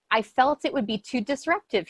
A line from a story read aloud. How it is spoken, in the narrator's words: he later said